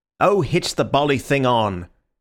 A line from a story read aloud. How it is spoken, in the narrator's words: said Syme impatiently